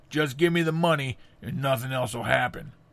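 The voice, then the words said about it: Imitated voice of a bank robber. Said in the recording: “That's my impression of Flory.”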